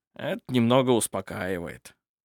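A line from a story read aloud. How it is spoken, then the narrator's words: Muttered. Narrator (Russian): пробормотал барон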